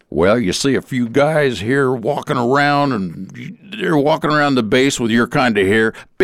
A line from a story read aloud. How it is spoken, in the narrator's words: I could hear the honesty in his southern accent when he said